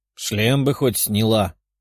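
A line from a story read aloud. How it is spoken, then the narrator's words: Grumble. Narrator (Russian): проворчала тигрица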